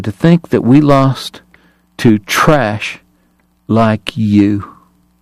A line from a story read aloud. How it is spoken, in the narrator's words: he said quietly